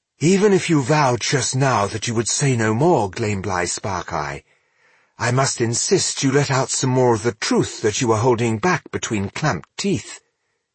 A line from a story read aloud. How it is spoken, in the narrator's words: he said quietly, but clearly enough for all to hear